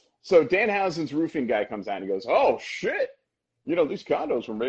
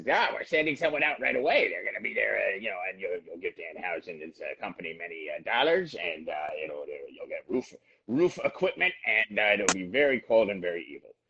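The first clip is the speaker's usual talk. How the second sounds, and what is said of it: Dan Housen impression. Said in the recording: “you do an amazing Dan Housen impersonation.”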